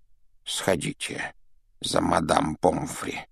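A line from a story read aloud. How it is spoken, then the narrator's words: Whispered request. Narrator (Russian): шепотом попросил Дамблдор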